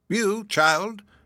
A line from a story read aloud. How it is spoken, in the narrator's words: exclaimed Hepzibah